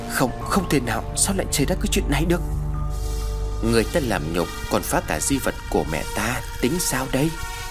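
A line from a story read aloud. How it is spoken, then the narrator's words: Eerie hissing laughter. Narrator (Vietnamese): Phi cười lên kèm theo những tiếng rít âm u vọng về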